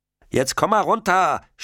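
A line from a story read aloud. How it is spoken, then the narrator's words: Shouting. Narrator (German): schreit Indy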